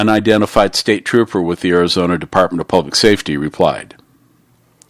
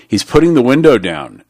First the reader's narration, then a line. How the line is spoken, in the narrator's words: said T